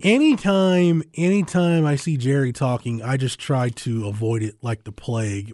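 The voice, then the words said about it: Slightly muffled voice. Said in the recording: “I have a cough drop in my mouth, folks. That's why my voice sounds a little muffled right now.”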